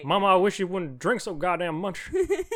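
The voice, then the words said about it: Imitates another person's voice. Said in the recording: “That was a good impression”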